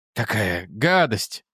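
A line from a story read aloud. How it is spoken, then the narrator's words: Groan. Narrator (Russian): простонал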